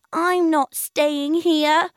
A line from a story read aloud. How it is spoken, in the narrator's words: wailed the duck